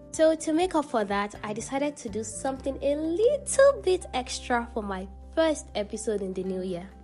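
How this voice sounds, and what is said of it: Excited, energetic speaking voice. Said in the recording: “hear the excitement in my voice because I'm literally so excited”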